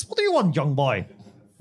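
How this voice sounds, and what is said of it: Imitates another person's voice. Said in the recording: “Worst Patrick Moore impression ever. You'd think I could be better at that.”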